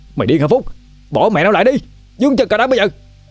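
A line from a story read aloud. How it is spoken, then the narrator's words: Angry shout. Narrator (Vietnamese): Đức Anh quát lên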